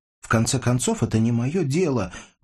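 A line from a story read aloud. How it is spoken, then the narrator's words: Shouted. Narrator (Russian): выкрикнула она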